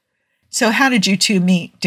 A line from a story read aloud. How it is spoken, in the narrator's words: Daniel asked